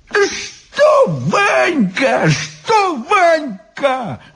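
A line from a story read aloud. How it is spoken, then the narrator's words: Exclaiming. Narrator (Russian): воскликнул Иван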